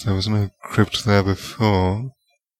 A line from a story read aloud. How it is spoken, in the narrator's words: Snape muttered